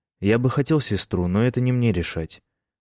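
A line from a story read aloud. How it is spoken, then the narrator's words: Wry grunt. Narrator (Russian): он хмыкнул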